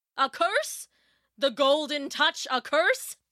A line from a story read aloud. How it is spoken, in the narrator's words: roared Midas